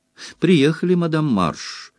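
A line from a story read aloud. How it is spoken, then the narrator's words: Joyful announcement. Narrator (Russian): радостно оповестил кондуктор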